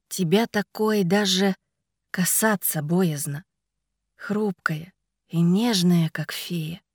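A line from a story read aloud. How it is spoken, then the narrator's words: Plain. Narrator (Russian): сказал он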